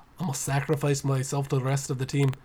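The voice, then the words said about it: Poor put-on Scottish accent. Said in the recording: “Boy, that wasn't a very good Scottish impression, was it?”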